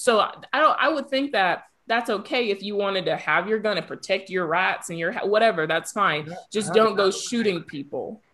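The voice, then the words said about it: Natural-sounding put-on Southern country accent. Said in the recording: “southern accent ... that little country vibe ... It was so natural, too”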